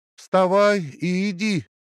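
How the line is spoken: Shouting. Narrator (Russian): крикнул Хьюстон

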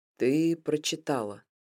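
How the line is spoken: Quiet. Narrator (Russian): произнес он тихо

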